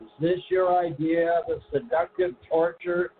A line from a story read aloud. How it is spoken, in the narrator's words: I said as we laughed